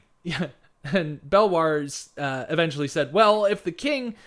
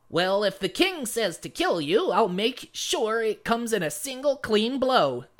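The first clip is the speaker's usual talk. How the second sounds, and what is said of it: Gnome character voice. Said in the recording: “I need to do my gnome voice.”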